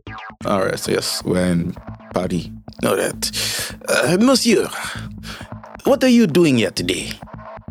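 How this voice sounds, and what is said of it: Put-on French accent. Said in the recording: “can you do a French accent?”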